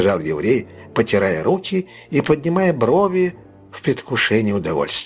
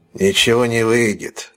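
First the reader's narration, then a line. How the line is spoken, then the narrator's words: Cold. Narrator (Russian): холодно отозвался Сайкс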